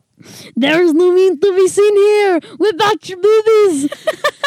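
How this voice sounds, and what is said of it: Arnold Schwarzenegger impression. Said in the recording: “It's Arnold Schwarzenegger about your boobies... The accent's dying.”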